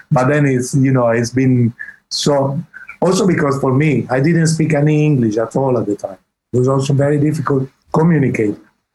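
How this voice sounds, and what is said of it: Italian-accented English. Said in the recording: “my English is Italian English”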